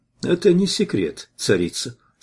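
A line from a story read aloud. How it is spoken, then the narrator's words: Calm reply. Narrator (Russian): спокойно ответил я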